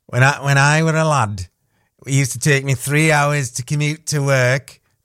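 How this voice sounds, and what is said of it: Put-on northern English accent. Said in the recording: “That's my first accent of the day, from up north.”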